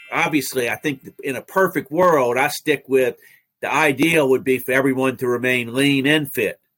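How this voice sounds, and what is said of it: New Orleans accent. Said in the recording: “cardiologist from New Orleans with the most brilliant accent I've ever heard”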